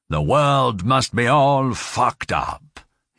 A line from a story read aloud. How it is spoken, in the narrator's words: he said